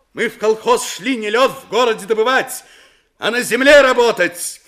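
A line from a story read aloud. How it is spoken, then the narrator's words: Shouting. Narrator (Russian): крикнула с места Строганова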